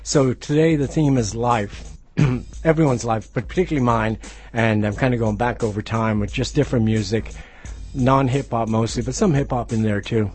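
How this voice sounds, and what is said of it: Hoarse voice. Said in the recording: “I'm a little hoarse today... I'm hoarse”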